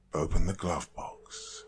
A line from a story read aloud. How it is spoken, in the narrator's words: she muttered in a staid voice